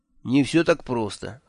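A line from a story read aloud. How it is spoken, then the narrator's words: Sighing. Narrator (Russian): вздохнул Кофа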